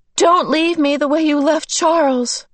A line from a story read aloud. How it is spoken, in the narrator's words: With this burst of terror, a spasm of pain racked her body and she gasped